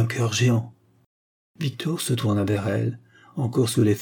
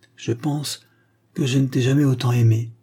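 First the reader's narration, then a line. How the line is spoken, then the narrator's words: Sincere. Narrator (French): dit-il d'une voix sincère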